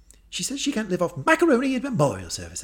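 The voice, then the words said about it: Posh British accent. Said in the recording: “I want to hear your posh accent say it ... Well done, well done. Very Harry Potter.”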